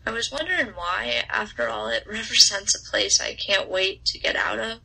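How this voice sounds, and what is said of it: Southern American accent, mild. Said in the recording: “I don't quite have a drawl, but my mouth creates a distinctly southern melody... my accent”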